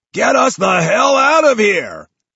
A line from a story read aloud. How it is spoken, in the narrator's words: barks